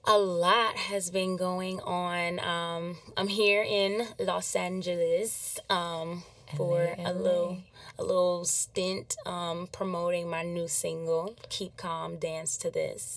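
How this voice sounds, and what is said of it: Slightly hoarse voice. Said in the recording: “I'm a little hoarse ... I've been screaming in the club for a week.”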